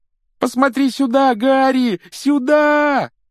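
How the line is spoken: Desperate yell. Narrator (Russian): отчаянно завопил Колин

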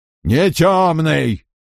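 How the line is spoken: Growled. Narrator (Russian): прорычал Харл Лухан

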